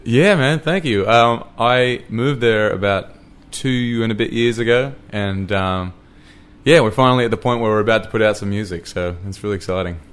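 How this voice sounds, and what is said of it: Australian accent. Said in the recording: “you've got an Australian accent.”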